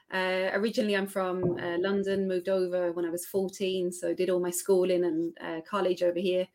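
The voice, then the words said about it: Australian-sounding accent. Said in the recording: “despite the dodgy Australian accent.”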